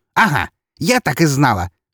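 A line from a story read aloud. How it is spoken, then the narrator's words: Delighted bark. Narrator (Russian): восторженно рявкнула она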